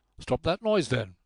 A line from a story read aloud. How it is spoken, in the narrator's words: said a voice sharply from the inside